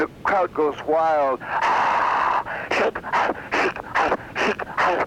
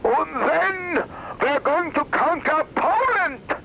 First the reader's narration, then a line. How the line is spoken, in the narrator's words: with the crowd hanging on every word, he screams out